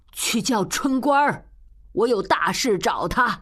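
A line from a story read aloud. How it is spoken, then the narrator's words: Sudden call. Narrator (Chinese): 江雪英忽然睁眼叫道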